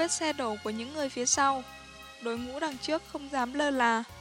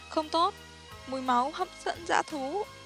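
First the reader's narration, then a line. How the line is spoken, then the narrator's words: Sudden frightened cry. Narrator (Vietnamese): Một người đột nhiên nhảy lên kêu sợ hãi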